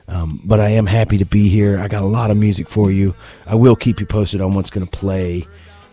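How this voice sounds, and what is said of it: Strained, fading hoarse voice. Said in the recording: “I'm losing my voice right here as I speak”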